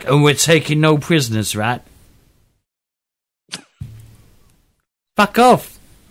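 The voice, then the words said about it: Put-on accent. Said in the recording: “it's a great accent.”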